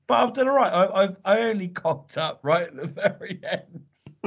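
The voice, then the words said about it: Tired, strained, fading voice. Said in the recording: “You're losing your voice.”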